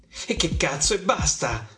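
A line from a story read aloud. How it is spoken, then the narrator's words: Wife's angry outburst. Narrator (Italian): sbotta ancora mia moglie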